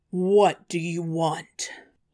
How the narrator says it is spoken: he roared out from afar

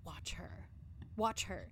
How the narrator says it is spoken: She whispered fearfully

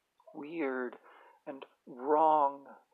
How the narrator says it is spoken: stammered

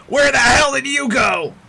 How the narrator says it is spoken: as he's struggling with this rigging and he yells

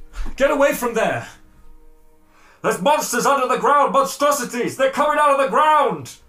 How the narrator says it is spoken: Shouting

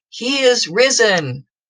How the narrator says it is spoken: the priest would have called out

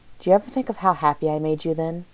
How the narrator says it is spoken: he asked

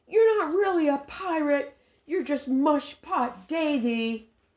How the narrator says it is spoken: Joey yelled after him

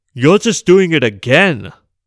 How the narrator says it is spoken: the emperor snapped

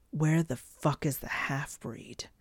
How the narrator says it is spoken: hissed

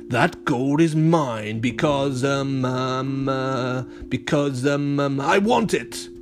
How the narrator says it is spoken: he growled

